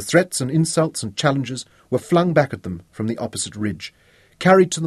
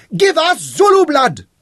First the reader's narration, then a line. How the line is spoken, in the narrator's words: his warriors screamed